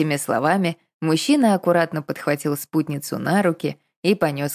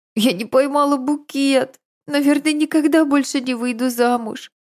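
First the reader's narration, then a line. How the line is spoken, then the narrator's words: Sobbing. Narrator (Russian): всхлипнула Надежда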